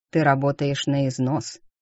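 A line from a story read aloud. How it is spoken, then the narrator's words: Grim statement. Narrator (Russian): мрачно констатировал он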